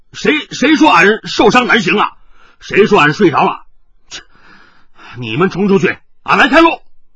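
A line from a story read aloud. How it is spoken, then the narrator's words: Loud. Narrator (Chinese): 海大少大声地说道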